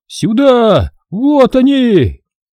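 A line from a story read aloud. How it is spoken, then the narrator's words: Surprised yell. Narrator (Russian): От удивления заорал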